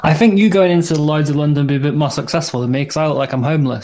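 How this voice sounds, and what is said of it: British accent. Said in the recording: “you have the accent, though... the British accent only makes you smart when you're in the US”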